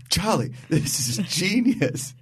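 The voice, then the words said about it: Imitates a TV character's voice. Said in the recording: “Was that your Frank impression just then?”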